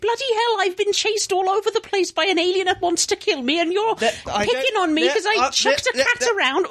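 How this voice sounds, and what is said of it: Put-on Welsh accent. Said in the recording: “I'm an American person doing a Welsh accent... it's a fantastic accent”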